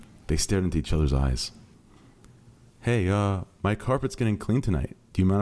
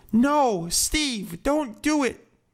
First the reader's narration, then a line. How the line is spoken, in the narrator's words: Mooten cried